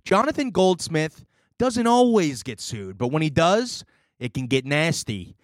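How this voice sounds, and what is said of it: Put-on accent. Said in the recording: “I'm going to drop the accent. It was fun to do”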